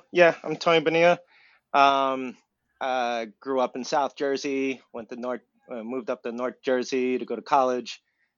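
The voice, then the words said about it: Exaggerated New Jersey accent. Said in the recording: “I'm throwing on some of that accent there for you”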